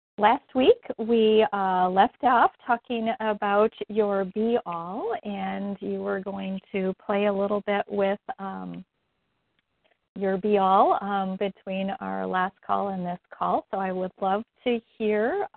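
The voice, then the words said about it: Slightly hoarse, croaky voice. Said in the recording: “I guess I have a little frog in my throat”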